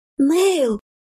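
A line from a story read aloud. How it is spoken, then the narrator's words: Joyful exclamation. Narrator (Russian): Мгновенно просияв, воскликнула Элен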